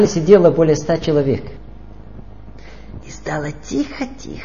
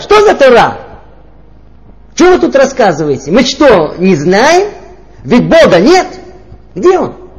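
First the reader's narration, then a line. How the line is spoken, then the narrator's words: Loud angry shout. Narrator (Russian): одна женщина громким голосом так рассерженно прокричала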